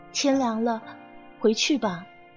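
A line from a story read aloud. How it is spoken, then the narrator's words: Soft voice. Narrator (Chinese): 万宝儿才扭头轻声说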